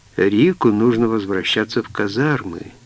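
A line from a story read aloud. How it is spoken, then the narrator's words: Sad. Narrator (Russian): грустно сказала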